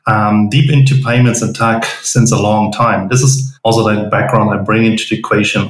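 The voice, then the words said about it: German-accented English. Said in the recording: “probably here for my accent, I'm German”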